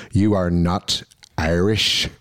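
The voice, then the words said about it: Thick Northern Irish accent. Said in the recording (Dutch): “die zei met dit accent ... Met een heel dik Noord-Iers accent”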